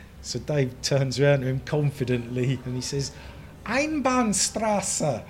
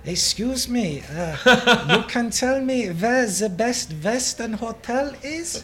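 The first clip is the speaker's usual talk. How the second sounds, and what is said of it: Pidgin German accent. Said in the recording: “in like a pidgin German accent”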